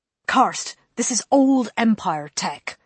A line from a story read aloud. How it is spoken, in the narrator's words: Holston snapped